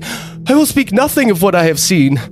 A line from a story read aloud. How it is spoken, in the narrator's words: I pleaded